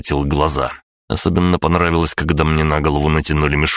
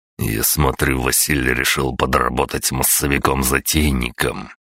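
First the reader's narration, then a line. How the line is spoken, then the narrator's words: Muttered through teeth. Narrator (Russian): процедил Аврелий себе под нос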